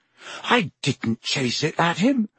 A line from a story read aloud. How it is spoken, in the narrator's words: Harry said, his voice shaking with anger